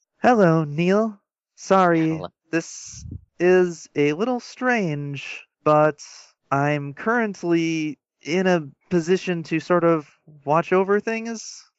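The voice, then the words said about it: Robotic girl character voice. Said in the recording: “give your best robot girl voice”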